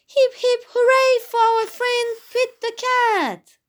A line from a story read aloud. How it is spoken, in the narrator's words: Santa cried